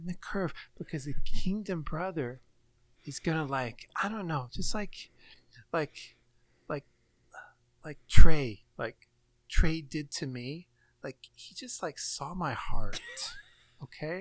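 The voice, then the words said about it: Youth pastor wife voice. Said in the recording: “That was a perfect youth pastor wife impersonation.”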